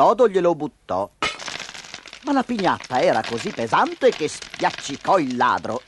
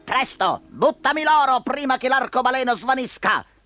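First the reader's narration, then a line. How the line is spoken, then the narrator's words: Thief shouting from below. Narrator (Italian): Sotto di lui il ladro gli gridò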